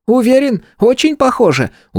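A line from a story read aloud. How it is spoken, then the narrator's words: Convinced, fearful squeak. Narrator (Russian): убежденно пропищал Харек, явно боясь, что сейчас скомкаю лист и примусь заново переносить на бумагу изображение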